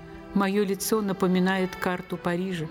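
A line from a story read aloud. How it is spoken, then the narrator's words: Grim joking. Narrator (Russian): Актриса сама мрачно шутила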